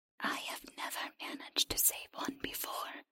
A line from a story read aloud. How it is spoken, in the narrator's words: the creature whispered